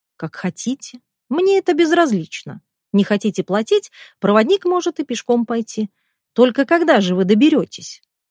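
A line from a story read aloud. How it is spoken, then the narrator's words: Calm. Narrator (Russian): спокойно говорит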